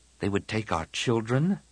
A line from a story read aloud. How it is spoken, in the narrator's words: Tian murmured